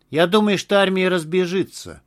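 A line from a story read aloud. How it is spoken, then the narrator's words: Dry. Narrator (Russian): сухо ответил Огурцов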